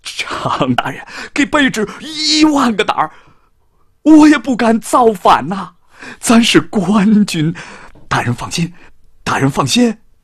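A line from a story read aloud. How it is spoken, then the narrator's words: Tearful voice. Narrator (Chinese): 金寿山用哭腔说着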